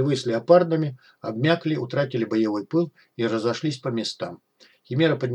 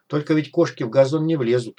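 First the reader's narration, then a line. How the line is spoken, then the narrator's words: Wry snort. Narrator (Russian): хмыкнул док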